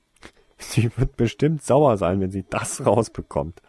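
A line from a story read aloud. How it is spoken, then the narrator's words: Laughing. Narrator (German): lachte Tasuin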